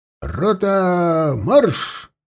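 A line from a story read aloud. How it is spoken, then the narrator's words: Shouted command. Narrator (Russian): крикнул Алексей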